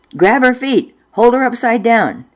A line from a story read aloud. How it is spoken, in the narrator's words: Mother yelled at Dad